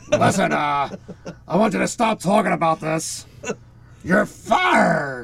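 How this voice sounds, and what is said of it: Imitates another person's voice. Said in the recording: “That's my best Vince McMahon.”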